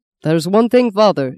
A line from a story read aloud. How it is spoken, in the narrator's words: shouted Dominic